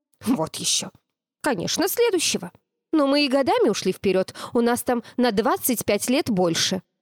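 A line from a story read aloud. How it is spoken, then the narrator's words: Grumbling. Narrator (Russian): Космический цыпленок проворчал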